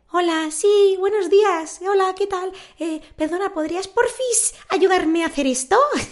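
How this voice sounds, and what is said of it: Sweet little girl's voice. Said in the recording (Spanish): “poner voz de niña buena de 10 años”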